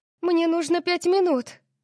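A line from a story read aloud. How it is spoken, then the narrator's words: Shout. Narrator (Russian): Крикнула она Ориону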